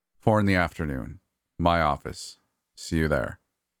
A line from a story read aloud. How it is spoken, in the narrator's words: giving one final sigh and adding